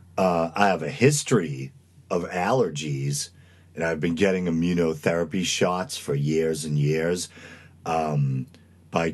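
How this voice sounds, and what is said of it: Congested voice, like a cold. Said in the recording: “my voice sounds a little funny ... I might sound like I have a bad cold or something”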